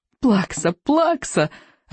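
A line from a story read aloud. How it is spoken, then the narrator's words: Gleeful yelling. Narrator (Russian): радостно вопила камикадзе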